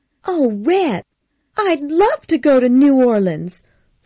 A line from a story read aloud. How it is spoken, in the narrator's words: Scarlett cried